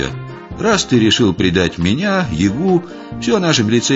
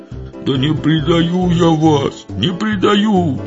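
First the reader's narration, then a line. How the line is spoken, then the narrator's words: Ashamed howl. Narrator (Russian): взвыл пристыженный Митька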